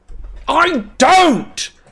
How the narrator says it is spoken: Harry screamed so loudly that he felt his throat might tear

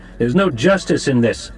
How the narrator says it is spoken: One of Halleck's aides down the table snapped

